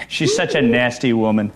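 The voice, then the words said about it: Imitates another person's voice. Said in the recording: “He does do a pretty good imitation of the president ... He does a very good imitation.”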